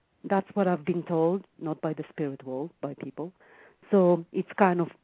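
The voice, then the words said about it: Thick Israeli accent in English. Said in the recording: “the accent is fine. You probably learned to speak English in Israel ... that's why it's so thick like that”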